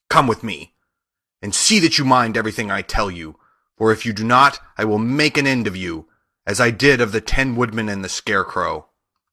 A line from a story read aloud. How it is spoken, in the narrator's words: she said to Dorothy harshly and severely